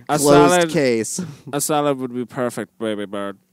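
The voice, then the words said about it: Imitates another person's accented voice. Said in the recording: “is that your accent?”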